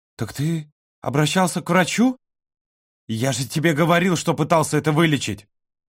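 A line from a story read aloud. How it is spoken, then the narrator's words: Exclamation. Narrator (Russian): Воскликнул Володя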